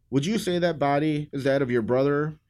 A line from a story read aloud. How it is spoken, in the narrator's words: asked her